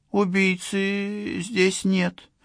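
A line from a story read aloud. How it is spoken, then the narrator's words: Shaky voice. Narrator (Russian): нетвердым голосом сообщила Аусонио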